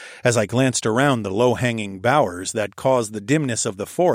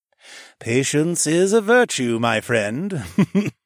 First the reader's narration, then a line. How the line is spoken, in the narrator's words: Mech chuckled